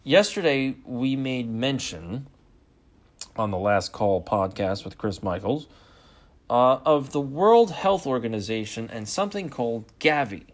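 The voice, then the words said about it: Tired, slightly strained voice. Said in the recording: “I'm already tired, and my voice is already starting to be a little bit strained.”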